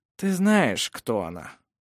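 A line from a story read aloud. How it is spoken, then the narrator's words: Weary. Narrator (Russian): устало сказал Ировар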